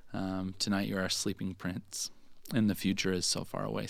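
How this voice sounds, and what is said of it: Choked-up emotional voice. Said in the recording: “a little choked up.”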